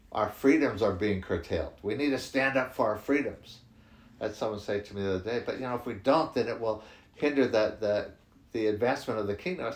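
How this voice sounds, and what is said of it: American accent. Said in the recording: “I'm from the States originally. You can tell by my accent.”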